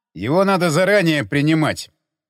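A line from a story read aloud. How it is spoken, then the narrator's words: Disapproving peasant's grumble. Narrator (Russian): неодобрительно пробурчал мужик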